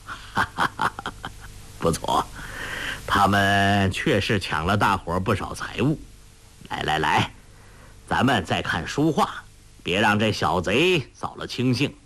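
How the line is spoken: Laughing heartily. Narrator (Chinese): 陆庄主呵呵大笑说

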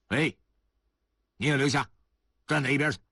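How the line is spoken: Decisive shout. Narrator (Chinese): 马建忠这会儿特别的果断，他喊道

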